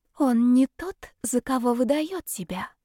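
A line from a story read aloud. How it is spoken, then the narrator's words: Very quiet. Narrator (Russian): тихо-тихо произнесла она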